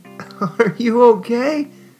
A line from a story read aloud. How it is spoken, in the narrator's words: she asked with a discomforted chuckle